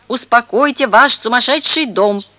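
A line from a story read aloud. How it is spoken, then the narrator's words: High-pitched shout. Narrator (Russian): закричал тонким голосом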